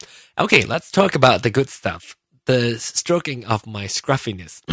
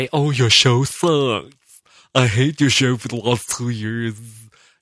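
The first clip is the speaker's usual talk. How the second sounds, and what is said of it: Imitates listeners' voices. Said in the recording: “my impression of my listeners' voices”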